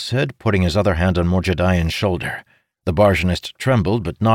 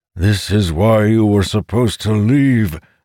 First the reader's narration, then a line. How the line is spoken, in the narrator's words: the Kaja's voice boomed in Amandal's head